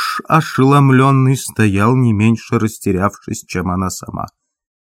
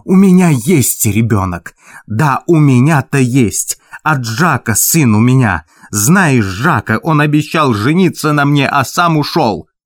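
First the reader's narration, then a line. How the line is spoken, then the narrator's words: Changed hissing voice. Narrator (Russian): изменившимся свистящим голосом произнесла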